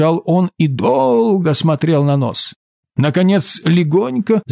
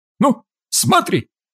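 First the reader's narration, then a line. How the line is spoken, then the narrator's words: Shouting. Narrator (Russian): закричал Ковалев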